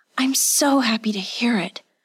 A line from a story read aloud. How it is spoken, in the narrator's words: breathed